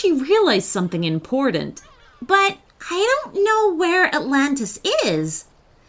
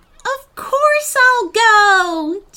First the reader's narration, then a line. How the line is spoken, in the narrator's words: Jemma cried